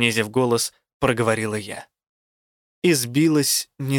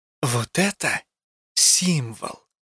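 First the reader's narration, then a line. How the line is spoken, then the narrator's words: Mock conspiratorial whisper. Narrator (Russian): подделываясь под заговорщицкий шепот, сообщила она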